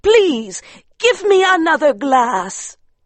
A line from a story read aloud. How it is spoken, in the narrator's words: she cried